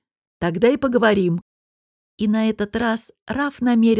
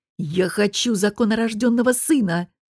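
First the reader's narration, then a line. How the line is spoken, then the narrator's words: Angry. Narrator (Russian): сердито сказал Раф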